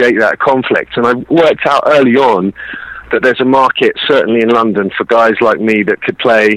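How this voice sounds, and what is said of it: Usual voice. Nothing is said of it.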